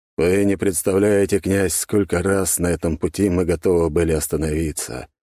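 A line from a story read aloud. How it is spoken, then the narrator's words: Sad, smiling. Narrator (Russian): грустно улыбнулся глава Романовых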